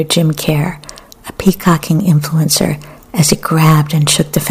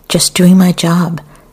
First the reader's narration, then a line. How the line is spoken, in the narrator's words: Another man cried